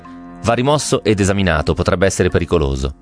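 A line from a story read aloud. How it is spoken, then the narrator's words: Firm tone. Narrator (Italian): Con tono fermo disse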